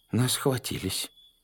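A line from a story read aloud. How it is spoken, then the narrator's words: Dejected voice. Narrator (Russian): упавшим голосом констатировал Кузя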